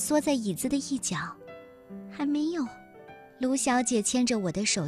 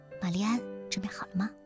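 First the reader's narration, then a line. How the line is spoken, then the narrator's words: Soft question. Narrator (Chinese): 卢小姐轻声地问我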